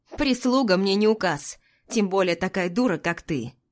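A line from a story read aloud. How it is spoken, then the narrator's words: Rude, curt. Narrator (Russian): Грубо бросает он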